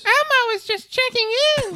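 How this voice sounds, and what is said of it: Elmo impression. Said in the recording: “The Red Muppet Elmo ... do I have to do the voice?”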